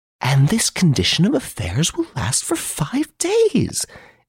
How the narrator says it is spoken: exclaimed Miss Nellie Underdown

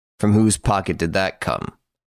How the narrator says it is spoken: asked Ganimard

